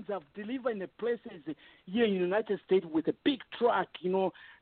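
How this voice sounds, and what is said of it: Zambian accent. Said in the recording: “my my accent ... This is a Zambian”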